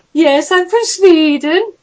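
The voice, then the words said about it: Exaggerated put-on Swedish accent. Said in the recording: “I'm doing this stupid, like, accent”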